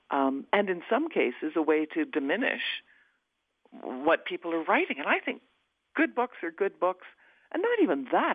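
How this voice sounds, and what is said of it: Rich, polished radio voice. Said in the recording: “you have a superb radio voice”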